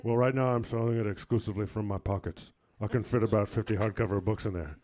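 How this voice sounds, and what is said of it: Imitates another person's voice. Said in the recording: “That's a good impression. ... thank you to Shaquille O'Neal for that awesome commercial ... I really play to my strengths when it comes to impressions”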